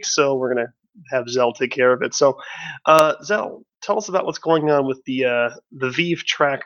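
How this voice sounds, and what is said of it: Voice sounds rough and strained. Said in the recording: “my voice is kind of shit this week”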